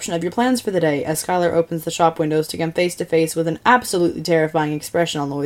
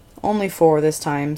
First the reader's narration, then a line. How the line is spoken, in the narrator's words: Skylar sighs